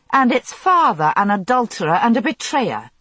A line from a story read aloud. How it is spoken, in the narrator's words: I snapped